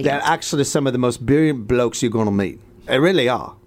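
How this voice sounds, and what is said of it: Put-on British accent. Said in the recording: “Can they talk in a British accent? ... Speaking with a British accent”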